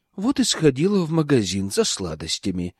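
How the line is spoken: Glum. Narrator (Russian): Мама уныло сказала

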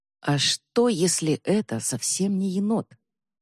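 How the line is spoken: Quiet question. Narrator (Russian): тихо спросила Эбба

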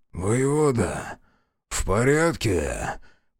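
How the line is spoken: Hoarse wheeze. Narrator (Russian): прохрипел метаморф

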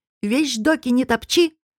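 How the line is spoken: Stern shout. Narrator (Russian): строго крикнула Степановна

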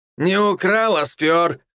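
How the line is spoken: Chuckling. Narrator (Russian): хохотнул Мор

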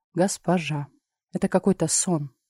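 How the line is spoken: Whisper. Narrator (Russian): прошептала я

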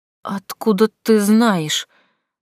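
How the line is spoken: Trembling voice. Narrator (Russian): дрожащим голосом проговорил Гай

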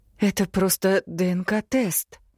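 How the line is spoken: Unusually trembling voice. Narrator (Russian): замечаю я непривычно дрожащим голосом

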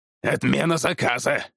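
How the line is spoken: Barked. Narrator (Russian): рявкнул он

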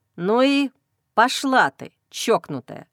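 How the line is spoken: Muttered through teeth. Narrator (Russian): Процедив сквозь зубы ругательства, Андрей

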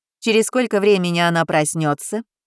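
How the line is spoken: Demanding question, doctor. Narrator (Russian): все тем же требовательным тоном поинтересовалась врач

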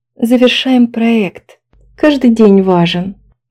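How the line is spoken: Sighing. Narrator (Russian): вздохнула Нина

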